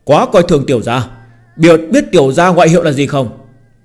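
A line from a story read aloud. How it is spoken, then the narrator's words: Sudden loud shout, smiling. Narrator (Vietnamese): Trên mặt Phương Hành hiện lên nụ cười, bỗng nhiên hét lớn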